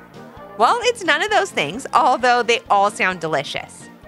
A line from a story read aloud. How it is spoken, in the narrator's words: giggled Mrs